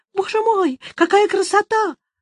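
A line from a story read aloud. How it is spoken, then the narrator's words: Old man's high-pitched shout. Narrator (Russian): старик закричал тонким голосом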